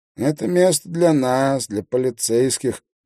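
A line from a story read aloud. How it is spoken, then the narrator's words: Nasal voice. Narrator (Russian): прогнусавил стоящий рядом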